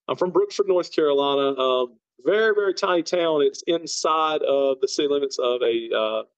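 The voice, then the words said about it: Very thick Southern accent. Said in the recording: “You do have a very thick Southern accent.”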